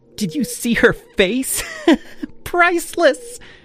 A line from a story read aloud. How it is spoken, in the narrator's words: Chloe giggled